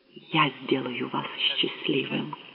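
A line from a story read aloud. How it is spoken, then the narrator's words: Whisper. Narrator (Russian): прошептала она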